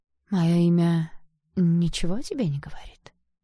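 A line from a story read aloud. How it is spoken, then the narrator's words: Sad question. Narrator (Russian): печально спросил он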